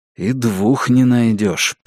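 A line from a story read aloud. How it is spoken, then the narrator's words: Audible whisper. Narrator (Russian): прошептал Джейк Эллен так, чтобы его смог услышать и Нус, и Норма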